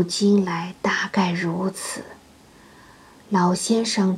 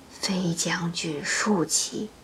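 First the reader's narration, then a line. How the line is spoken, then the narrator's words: Sighing. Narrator (Chinese): 五叔叹息道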